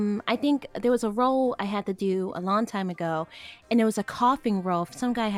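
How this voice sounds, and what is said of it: Usual voice. Nothing is said of it.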